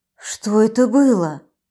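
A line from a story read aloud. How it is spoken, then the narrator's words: Trembling voice, asking. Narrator (Russian): Подрагивающим голосом спросила я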